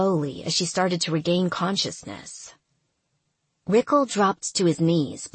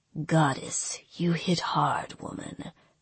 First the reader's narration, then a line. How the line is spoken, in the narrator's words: he murmured